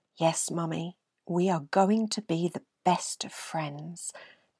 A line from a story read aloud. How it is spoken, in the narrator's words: Ben whispered